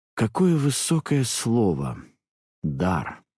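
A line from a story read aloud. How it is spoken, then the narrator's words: Dismissive drawl. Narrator (Russian): протянула девушка, довольно пренебрежительно окрашивая последнее слово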